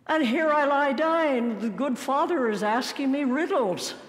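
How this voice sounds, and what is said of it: Put-on Irish accent. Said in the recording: “I imagine with an Irish accent”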